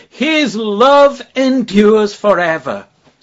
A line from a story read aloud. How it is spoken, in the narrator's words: They break out with a great shout